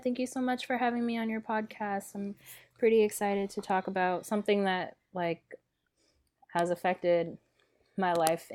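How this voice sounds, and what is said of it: Sick, congested-sounding voice. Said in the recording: “Sorry if I sound a little sick. It's only because I am a little sick.”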